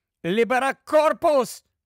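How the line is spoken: Shouted. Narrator (Ukrainian): крикнув Гаррі

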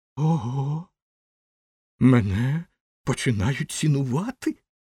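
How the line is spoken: Joyful exclamation. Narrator (Ukrainian): радісно вигукнув він

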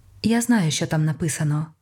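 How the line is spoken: Calm. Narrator (Ukrainian): спокійно сказала вона

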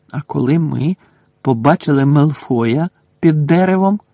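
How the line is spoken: Slow, drawn out. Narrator (Ukrainian): повільно проказав Рон

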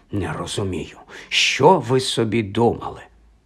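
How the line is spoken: Muttering under breath. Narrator (Ukrainian): бурмотіла собі щось під ніс

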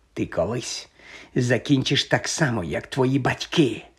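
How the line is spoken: Quiet hiss. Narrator (Ukrainian): прошипів неголосно

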